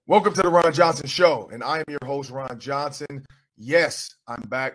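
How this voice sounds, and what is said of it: Strained, not fully recovered voice. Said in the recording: “My voice is getting a little better. Still not there yet, though, but I got to make sure I'm not screaming”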